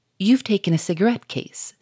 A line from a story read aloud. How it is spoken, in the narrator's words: said the Duke